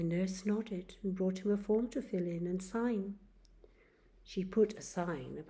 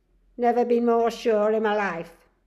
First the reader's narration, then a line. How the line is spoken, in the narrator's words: snapped Charlie